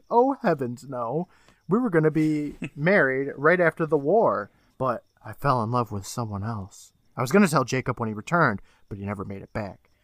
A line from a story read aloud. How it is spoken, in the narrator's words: Miss Simpson chuckles saying